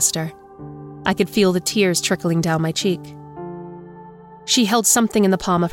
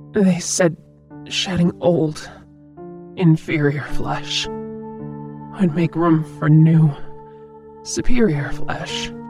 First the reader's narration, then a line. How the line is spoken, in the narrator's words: croaked